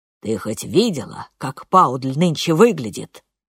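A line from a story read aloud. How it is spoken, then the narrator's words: Growled. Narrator (Russian): прорычал он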